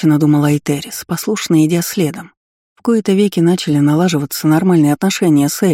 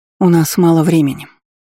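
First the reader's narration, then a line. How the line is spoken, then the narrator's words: Sighing. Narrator (Russian): вздохнула Дисси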